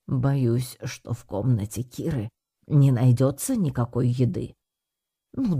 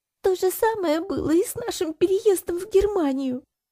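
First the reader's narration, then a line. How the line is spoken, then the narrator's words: Sobbing. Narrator (Russian): всхлипнув, продолжала Кира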